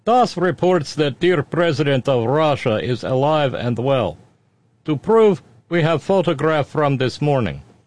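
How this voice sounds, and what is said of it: Put-on Russian accent. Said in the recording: “read this with Russian accent.”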